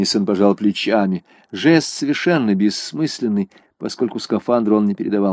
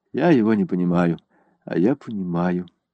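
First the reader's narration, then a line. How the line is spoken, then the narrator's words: Quiet speech. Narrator (Russian): негромко сказала Селена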